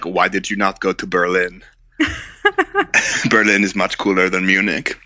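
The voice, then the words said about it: Good put-on German accent. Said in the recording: “you do a very good German accent.”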